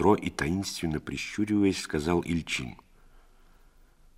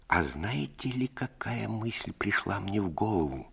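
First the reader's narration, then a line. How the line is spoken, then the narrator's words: Mysterious whisper. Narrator (Russian): зашептал Ильчин от таинственности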